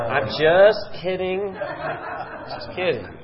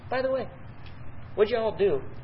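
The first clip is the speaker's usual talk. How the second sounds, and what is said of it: Texas accent. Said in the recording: “I think He's got a Texas accent.”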